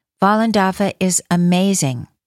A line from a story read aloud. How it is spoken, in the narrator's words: shouted